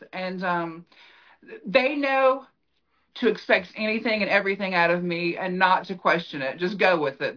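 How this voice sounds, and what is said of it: Southern American accent. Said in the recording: “We're from the South, obviously, with this accent.”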